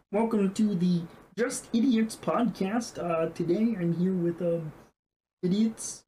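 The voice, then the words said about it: Kermit the Frog impression. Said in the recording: “a really good Kermit the Frog impression”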